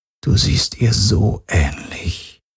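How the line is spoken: Quiet. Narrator (German): sagte er leise

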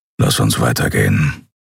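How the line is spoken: Grumbling. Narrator (German): brummte er

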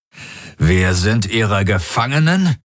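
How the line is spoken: Growling. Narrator (German): knurrte Darajos

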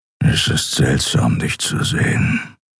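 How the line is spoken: Grumbling. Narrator (German): brummte er

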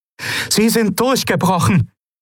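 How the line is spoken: Calling out to others. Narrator (German): rief Aylan den anderen zu

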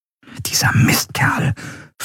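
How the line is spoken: Whispered. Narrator (German): flüsterte Andreel

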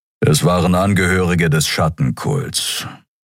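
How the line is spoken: Grumbling. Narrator (German): brummte Kero

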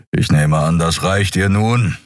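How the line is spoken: Impatient growl. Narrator (German): knurrte Keru ungeduldig

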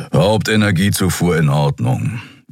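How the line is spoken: Growled. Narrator (German): knurrte Keru

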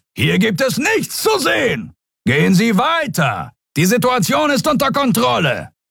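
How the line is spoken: Bellowing at crowd. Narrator (German): Und zu der gaffenden Menge brüllte er

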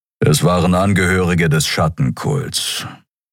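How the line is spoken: Grumbling. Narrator (German): brummte

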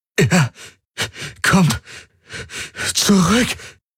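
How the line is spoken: Gasping between heavy breaths. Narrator (German): keuchte er zwischen heftigen Atemzügen

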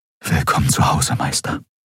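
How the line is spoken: Whisper. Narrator (German): flüsterte er

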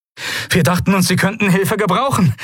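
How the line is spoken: Breathless shout. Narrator (German): rief Novus atemlos

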